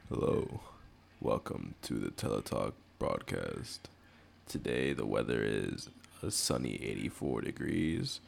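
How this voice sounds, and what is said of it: Put-on sexy voice. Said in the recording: “Let me put my sexy voice on”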